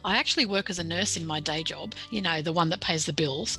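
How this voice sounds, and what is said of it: Australian accent. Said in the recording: “I'm an Australian author, a very down-to-earth Australian author ... I'm pretty sure my accent's probably already given me away”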